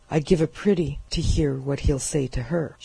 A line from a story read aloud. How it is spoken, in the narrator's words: she commented bitterly